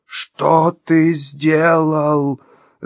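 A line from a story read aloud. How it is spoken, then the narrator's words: Screaming creature. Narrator (Russian): завопило это непонятное существо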